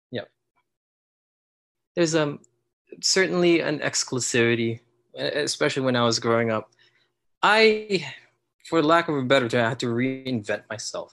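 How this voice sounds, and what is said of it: Slight accent. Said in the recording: “you can still tell I have an accent, but I've worked hard on it”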